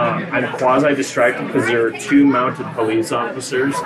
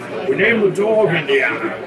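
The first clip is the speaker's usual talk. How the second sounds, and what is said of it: Bad Scottish-accented impression. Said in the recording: “I don't have a good Scottish accent ... I do a really bad Sean Connery.”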